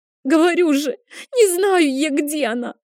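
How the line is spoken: Forced out through sobs. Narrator (Russian): Сквозь рыдание выдавила из себя Айла

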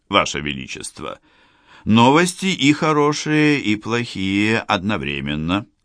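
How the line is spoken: Plain. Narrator (Russian): сказал он

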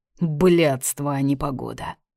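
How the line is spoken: Grumbling. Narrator (Russian): ворчала она

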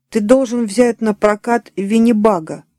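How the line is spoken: Plain. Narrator (Russian): сказала Эми

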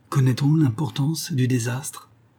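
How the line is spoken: Fearful question. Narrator (French): Targ demanda, d'une voix craintive

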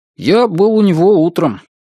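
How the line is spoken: Plain. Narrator (Russian): ответил Брезыч

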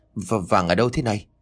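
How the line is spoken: Trembling voice. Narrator (Vietnamese): hỏi chồng bằng một chất giọng run rẩy

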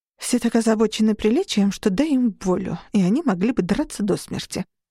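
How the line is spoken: Muttered. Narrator (Russian): пробормотала

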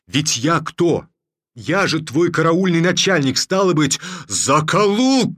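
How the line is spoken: Frightened, angry shouting. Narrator (Russian): кричал татарин испуганно и злобно

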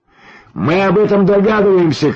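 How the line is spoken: Shouted reply. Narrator (Russian): крикнул в ответ Юрьев

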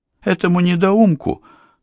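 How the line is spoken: Exclamation. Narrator (Russian): тут же воскликнула Дерека

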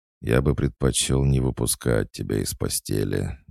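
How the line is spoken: Answered in a muffled voice. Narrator (Russian): глухо отозвался Никита

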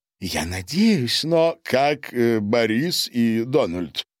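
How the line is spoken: Plain. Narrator (Russian): спросил Гарин

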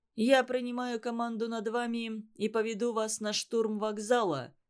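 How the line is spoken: Plain. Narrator (Russian): сказал им политрук

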